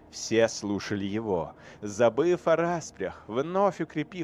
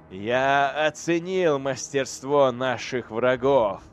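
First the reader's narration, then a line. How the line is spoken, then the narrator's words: Laughing. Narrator (Russian): Эйдолон рассмеялся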